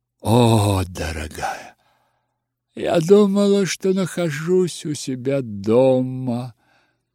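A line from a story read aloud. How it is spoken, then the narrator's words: Sighing. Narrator (Russian): вздохнула она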